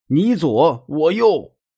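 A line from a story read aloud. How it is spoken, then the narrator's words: Man shouting. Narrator (Chinese): 那大叔就喊道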